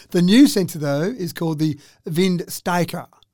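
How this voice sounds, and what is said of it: Put-on German accent. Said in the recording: “I feel like I'm putting a German accent in there. when you have some of those harsh consonants like that, like Steiker sounds like it has to have a German accent.”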